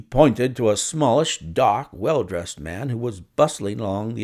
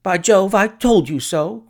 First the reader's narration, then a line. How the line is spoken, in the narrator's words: cried the clerk